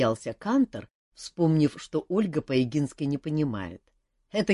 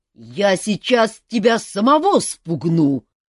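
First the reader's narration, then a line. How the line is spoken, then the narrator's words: Angry roar, offended centaur. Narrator (Russian): разгневанно взревели в кустах, и обиженный кентавр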